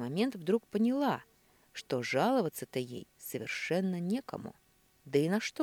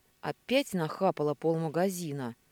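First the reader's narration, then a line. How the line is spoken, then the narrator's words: Grumbling. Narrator (Russian): проворчал Серега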